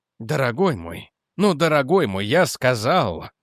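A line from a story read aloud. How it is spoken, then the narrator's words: Sighing. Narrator (Russian): вздохнул Реджи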